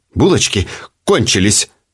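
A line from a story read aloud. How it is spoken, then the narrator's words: Curt angry retort. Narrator (Russian): сердито отрезала она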